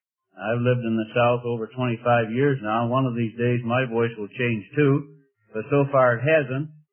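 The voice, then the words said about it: Midwestern nasal twang. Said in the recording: “I have a Midwestern nasal twang ... my nasal twang ... I talk through my nose”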